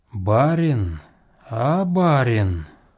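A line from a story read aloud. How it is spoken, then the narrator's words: Sudden sonorous voice. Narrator (Russian): промолвил вдруг Касьян своим звучным голосом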